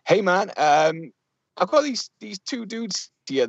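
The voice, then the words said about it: Put-on American accent. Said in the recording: “this American accent came on”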